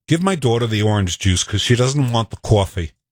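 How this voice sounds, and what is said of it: Put-on New York accent. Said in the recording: “Can you do a New York accent? Here is the quintessential New York sentence.”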